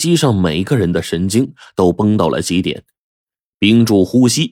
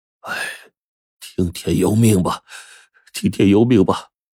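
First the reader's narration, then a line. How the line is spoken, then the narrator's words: Sighing. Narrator (Chinese): 姜炳南呢叹息了一口气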